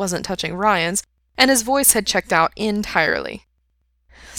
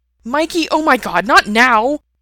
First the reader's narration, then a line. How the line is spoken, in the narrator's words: Brendan snapped